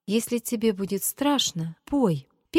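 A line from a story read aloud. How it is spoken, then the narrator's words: Timid. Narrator (Russian): Петя начал робко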